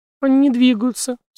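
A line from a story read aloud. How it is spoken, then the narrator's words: Sob. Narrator (Russian): всхлипнула она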